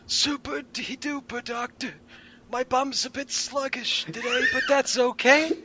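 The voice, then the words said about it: Old cartoon grandpa character voice. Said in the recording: “I love your accent. You sound like... Tommy from the Rugrats Grandpa.”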